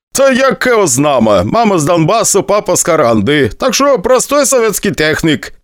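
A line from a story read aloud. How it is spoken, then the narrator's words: Laughing. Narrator (Russian): посмеялся дядя Вася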